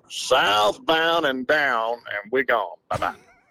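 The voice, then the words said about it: Exaggerated Southern Mississippi twang. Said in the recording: “give me a little southern southbound and down? I need the Mississippi, the southern twang ... I need some cowboy”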